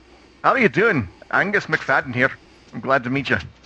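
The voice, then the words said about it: Bad put-on Scottish accent. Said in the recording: “That's a really bad... Apologies for the horrible Scottish accent.”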